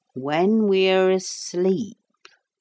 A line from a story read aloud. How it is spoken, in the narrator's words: said slowly